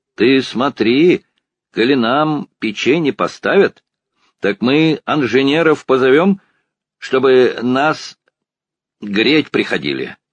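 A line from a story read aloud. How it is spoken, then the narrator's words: Peasant woman shouting. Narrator (Russian): крикнула та самая калужская баба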